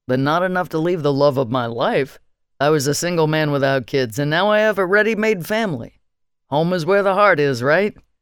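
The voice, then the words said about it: Boisterous male character voice. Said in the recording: “he said in a boisterous voice.”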